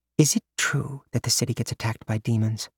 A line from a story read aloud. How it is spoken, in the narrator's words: She whispered